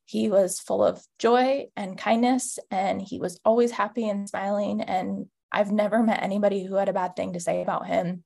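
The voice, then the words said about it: Emotional, grief-strained voice. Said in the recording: “probably some of the worst pain I've ever felt in my life... I'm sure you can hear it in my voice... It's still something to this day that's pretty raw.”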